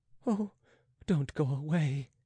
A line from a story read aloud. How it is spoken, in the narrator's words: she faltered